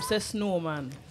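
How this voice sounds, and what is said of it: Mock Irish-Jamaican accent. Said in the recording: “What kind of accent was that? ... I have my little Irish Jamaican accent. ... Jamaican, like, D-Ray ... a white man trying to speak Patwa”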